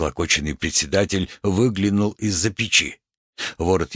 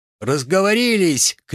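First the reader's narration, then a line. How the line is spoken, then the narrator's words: Shouted. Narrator (Russian): крикнул Чернышов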